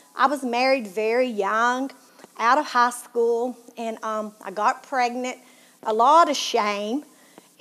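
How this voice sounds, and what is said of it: Southern Tennessee accent. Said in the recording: “you can tell by my accent that I'm from Tennessee ... my southern accent”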